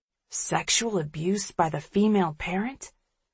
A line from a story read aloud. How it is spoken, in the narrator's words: Edison murmurs over my shoulder